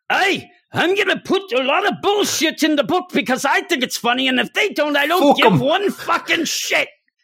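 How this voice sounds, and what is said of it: Grant Morrison impression, sounding German. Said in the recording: “Here's Grant Morrison ... I don't know why I sound German there. That's him.”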